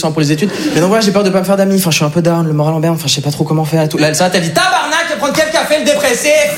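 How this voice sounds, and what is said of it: Put-on Québécois French accent. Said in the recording (French): “j'ai pris l'accent québécois, il faut savoir, je suis pas du tout québécois”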